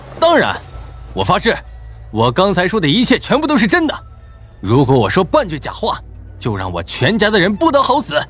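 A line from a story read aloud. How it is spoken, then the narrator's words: Loud and unflinching. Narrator (Chinese): 韩立涛眼都没眨，大声说道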